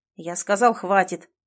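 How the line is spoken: Irritated outburst. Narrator (Russian): психанул он, раздраженно

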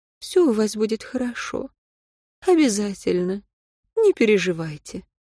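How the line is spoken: Said with motherly tenderness. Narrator (Russian): по-матерински ласково сказала

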